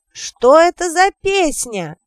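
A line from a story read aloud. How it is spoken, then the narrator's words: Drunken, too-loud question. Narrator (Russian): спросил Гриттир, спьяно не соображая, что говорит слишком громко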